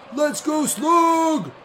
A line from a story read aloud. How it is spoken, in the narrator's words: The stranger called out